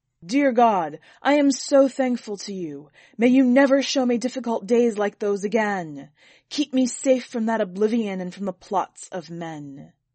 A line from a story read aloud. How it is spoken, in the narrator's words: he loudly proclaimed his thanks to God, saying